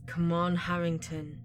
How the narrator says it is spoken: Eddie murmurs

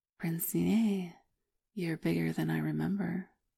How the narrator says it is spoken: murmured

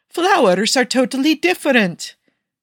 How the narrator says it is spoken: Nicky cried defensively

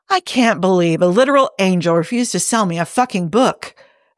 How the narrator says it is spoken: Hob grumbled

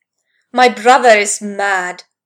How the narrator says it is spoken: Thor shouted

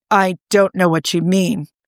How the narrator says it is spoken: he said stiffly

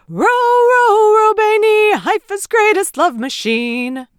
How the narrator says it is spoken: an explosion of cheers and shouts of

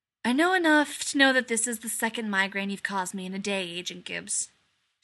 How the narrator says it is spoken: Shepard sighed

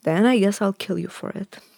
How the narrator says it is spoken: he said

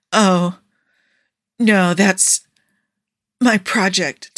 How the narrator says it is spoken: Tony gasped out

